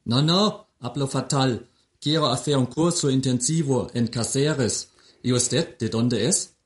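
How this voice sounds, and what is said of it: German accent speaking Spanish. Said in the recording (Spanish): “Por el acento no eres español, ¿verdad? ... No, soy alemán. Mi acento es horrible, ¿verdad? ... No, hombre, es muy gracioso.”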